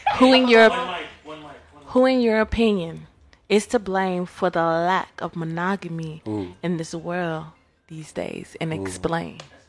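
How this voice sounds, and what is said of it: Smooth sexy radio voice. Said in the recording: “I'm trying to put on radio voice ... I'm trying to be all sexy with it ... Quiet storm”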